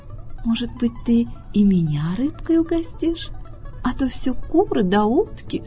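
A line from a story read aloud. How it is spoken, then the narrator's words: Very quiet question. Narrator (Russian): Лиса ... совсем тихо спрашивает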